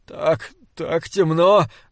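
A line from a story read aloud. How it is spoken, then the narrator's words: Trembling voice, priest. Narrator (Russian): дрожащим голосом ответил священник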